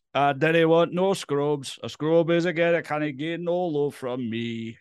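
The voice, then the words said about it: Raps in a put-on accent. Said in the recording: “rapping badly and in the incorrect accent ... I like to do songs in random accents”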